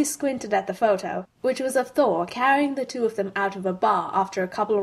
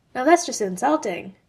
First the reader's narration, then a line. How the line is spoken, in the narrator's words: she muttered